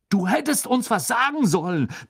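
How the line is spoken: Roaring, half annoyed, impressed. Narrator (German): brüllte Fred, halb verärgert, doch auch schwer beeindruckt

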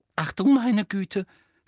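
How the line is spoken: Sudden breathless exclamation. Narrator (German): stieß Hermine plötzlich atemlos hervor

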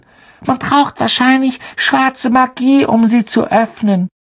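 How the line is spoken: Squeaky girl's voice. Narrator (German): piepste Parvati Patel

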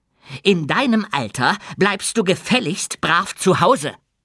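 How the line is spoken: Shrieking. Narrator (German): kreischte Effi

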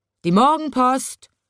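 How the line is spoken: Calling out. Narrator (German): ruft er

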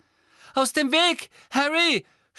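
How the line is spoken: Determined shout. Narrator (German): schrie Neville, sichtlich entschlossen

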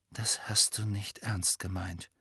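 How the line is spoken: Quiet. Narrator (German): sagte Harry leise

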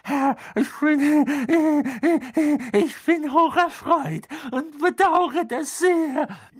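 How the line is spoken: Gasping. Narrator (German): keuchte der Mann auf dem Boden

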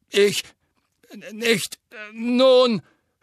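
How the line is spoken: Stammering. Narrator (German): stammelte Fatsch

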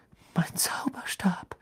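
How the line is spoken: Trembling voice. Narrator (German): sagte Ron mit zittriger Stimme

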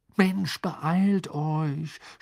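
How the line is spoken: Groaning. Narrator (German): stöhnte Ron

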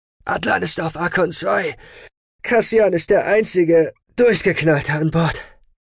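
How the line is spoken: Panting. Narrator (German): Kerlon keuchte

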